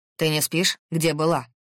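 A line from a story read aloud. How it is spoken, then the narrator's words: Sharp question. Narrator (Russian): резко спросил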